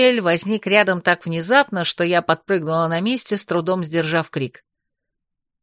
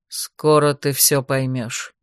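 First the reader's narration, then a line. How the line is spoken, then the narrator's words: Quiet. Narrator (Russian): тихо сказал он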